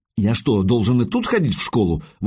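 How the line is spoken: Exclaiming. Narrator (Russian): воскликнул Найд

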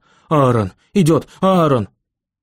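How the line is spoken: Soft cry. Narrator (Russian): Виола легонько вскрикнула

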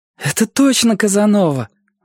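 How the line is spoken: Joyful exclamation. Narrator (Russian): воскликнула с радостной улыбкой Эллен

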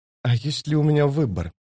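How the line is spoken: Whisper. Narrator (Russian): прошептала она

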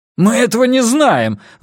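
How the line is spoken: Agitated shout. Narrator (Russian): взволнованно выкрикнул Джеймс

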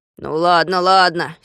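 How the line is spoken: Angry grumble. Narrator (Russian): сердито проворчал Пончик

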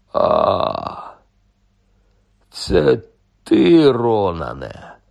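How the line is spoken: Relieved sigh. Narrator (Ukrainian): полегшено зітхнув Гегріт

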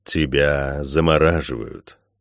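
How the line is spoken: Deep bass voice. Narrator (Russian): сказал незримый зверь земли густым своим басом

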